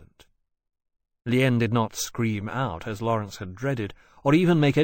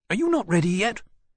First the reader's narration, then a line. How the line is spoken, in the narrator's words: Hammond said anxiously